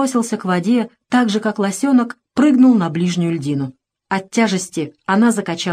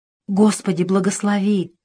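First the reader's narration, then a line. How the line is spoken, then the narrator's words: Whisper. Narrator (Russian): прошептал Тимоха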